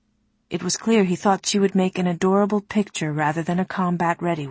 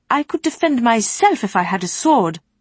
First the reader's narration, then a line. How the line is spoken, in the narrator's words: Sarai reminded the adults, her voice sharp